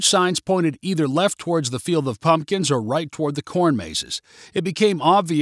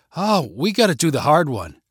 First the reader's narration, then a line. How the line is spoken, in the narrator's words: said Gabby